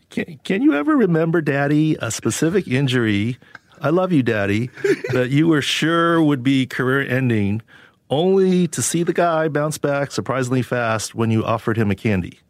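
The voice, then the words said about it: Imitating a happy little girl's voice. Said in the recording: “read it in your youngest daughter's voice... When she's happy.”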